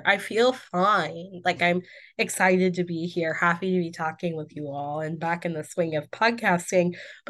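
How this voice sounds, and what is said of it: Rough, off-sounding voice. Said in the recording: “my voice is kind of sounding shitty ... my voice is weird”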